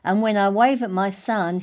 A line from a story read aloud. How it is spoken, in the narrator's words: he shouts